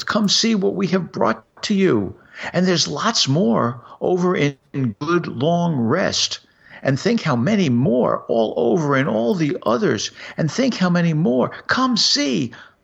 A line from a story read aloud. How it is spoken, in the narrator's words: yelled